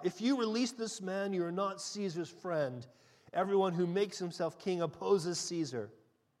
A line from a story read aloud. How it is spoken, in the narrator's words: the Jews cried out